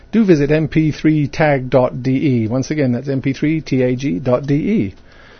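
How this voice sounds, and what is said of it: Usual voice. Nothing is said of it.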